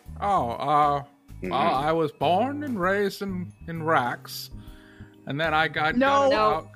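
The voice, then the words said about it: Hard-to-understand put-on character accent. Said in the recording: “I can't understand this guy's accent. ... You did not get that accent in Rax. Where did you get that accent?”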